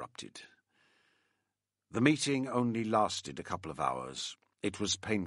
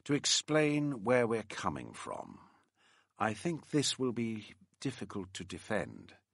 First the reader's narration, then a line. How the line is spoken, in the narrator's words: the QC said very gently